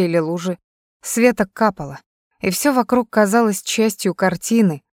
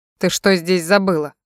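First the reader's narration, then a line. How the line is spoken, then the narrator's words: Cold question. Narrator (Russian): холодно спросил он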